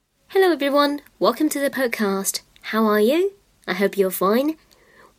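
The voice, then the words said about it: Accented English with rising-falling intonation. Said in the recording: “you've got a lovely sounding accent. And again, I like the way that you're rising and falling and the pausing and the right intonation.”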